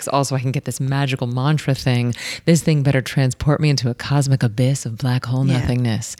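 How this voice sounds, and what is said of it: Soft, soothing ASMR-style voice. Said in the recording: “You do have an ASMR voice.”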